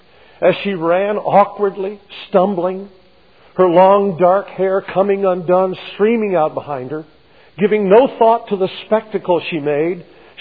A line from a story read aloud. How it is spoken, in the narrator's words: she cried